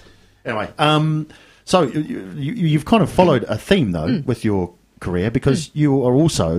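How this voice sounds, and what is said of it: Usual voice. Nothing is said of it.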